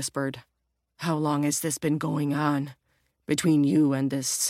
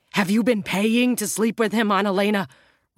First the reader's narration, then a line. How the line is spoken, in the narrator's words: Roger exclaimed